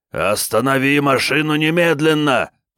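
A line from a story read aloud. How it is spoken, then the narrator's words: Nearly shouting. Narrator (Russian): почти закричал он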